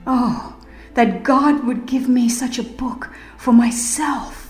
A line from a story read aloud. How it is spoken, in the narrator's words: With quickened pulse and throbbing heart, he read for himself the words of life, pausing now and then to exclaim